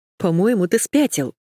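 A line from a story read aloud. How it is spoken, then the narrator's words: Giggling. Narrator (Russian): хихикнула я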